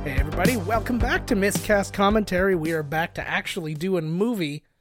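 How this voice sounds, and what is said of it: Announcer-style radio voice. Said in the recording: “I like whatever you're doing with your voice in the very beginning of this ... You had your radio voice on or something.”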